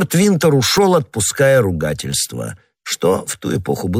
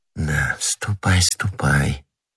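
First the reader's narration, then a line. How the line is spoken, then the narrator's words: Whisper. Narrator (Russian): прошептала она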